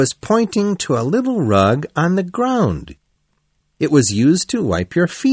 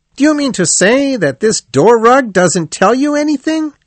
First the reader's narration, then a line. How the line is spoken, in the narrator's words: the rat almost shouted